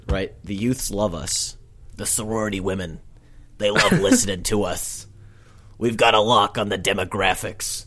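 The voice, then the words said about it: Imitates another person's voice. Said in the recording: “that was a Bernie impression”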